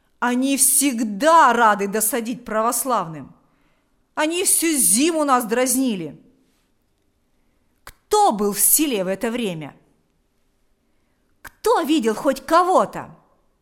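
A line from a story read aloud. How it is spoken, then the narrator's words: Shout. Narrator (Russian): закричал Шила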